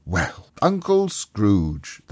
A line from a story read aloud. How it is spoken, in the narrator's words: they cried